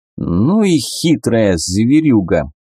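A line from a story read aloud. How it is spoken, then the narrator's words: Displeased grumbling. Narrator (Russian): недовольно проворчал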